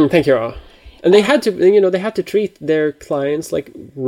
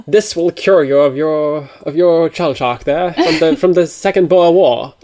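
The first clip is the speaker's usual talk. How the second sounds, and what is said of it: Put-on accent. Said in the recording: “I'm liking the accent.”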